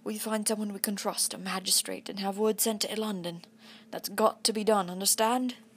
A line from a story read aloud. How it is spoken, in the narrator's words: I said hoarsely